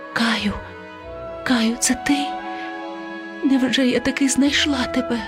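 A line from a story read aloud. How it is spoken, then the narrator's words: Female whisper. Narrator (Ukrainian): вона прошепотіла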